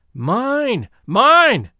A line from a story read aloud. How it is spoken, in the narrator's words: cried a loud voice